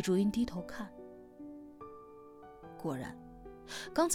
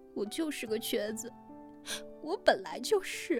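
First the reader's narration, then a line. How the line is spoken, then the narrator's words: Tearful, crying. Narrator (Chinese): 小满哭了满脸泪，看着李竹云说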